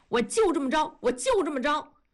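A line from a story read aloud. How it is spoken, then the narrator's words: Muffled shouting under covers. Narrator (Chinese): 同志……在被窝里叫着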